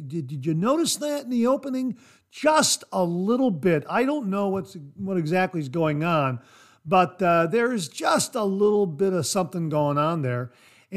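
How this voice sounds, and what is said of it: Slightly raspy voice. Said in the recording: “My voice is just a little bit raspy.”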